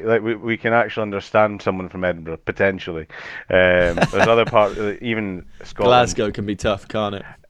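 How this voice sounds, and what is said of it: Mild Edinburgh Scottish accent. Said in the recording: “That is a quite delightful accent that you've got... I'm from Edinburgh in Scotland, so we we don't have too it's not too much of a strong Scottish accent”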